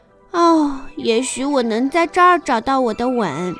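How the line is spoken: Sighing. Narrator (Chinese): 他叹着气说

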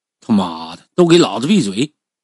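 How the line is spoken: Harsh shouted command. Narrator (Chinese): 下头那个死光头佬啊，厉声令喝

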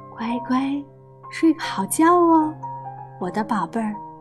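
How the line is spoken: Soft, gentle. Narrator (Chinese): 布朗太太轻声说

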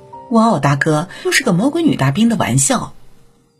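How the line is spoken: Stunned, awkward laugh. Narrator (Chinese): 洛克似乎被吓懵了，尬笑了两下，回应称

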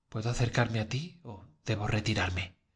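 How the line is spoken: Trembling voice. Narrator (Spanish): le preguntó con voz trémula

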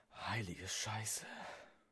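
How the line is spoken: Murmuring. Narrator (German): murmelte

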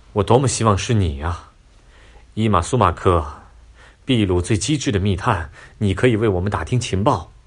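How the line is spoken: Sighing. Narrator (Chinese): 唉，他叹息道

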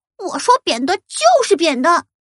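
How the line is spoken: Shouting while shaking tree. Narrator (Chinese): 咪咪 一边摇一边叫

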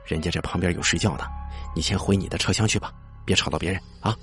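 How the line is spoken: Hushed, lowered voice. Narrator (Chinese): 听到有人打鼾的声音，我压低声音说

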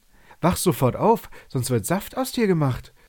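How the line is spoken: Excited shout. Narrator (German): rief er ganz aufgeregt

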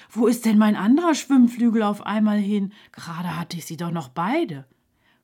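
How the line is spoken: Called out. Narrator (German): rief Suse

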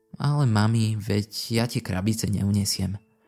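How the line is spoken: Said sadly. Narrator (Slovak): povedala Ashley smutne

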